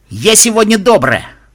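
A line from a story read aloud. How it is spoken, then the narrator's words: Loud carrying shout. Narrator (Russian): прокричала Rainbow так, что ее было слышно зрителям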